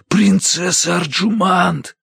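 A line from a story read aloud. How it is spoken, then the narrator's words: Desperate whisper. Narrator (Russian): звал я отчаянным шепотом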